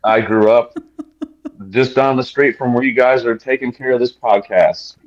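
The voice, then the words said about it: Southern US accent. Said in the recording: “Is that where you learned to speak this way? ... the South robbed me of my Northern accent.”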